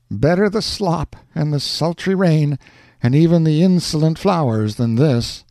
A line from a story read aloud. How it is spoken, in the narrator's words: Alonzo shuddered, and said with a sigh